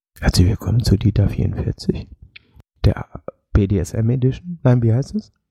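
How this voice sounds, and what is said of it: Whispering with audible breathing. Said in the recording (German): “Bisschen lauter atmen noch dabei, bitte. ... Und nur flüsternd unterhalten.”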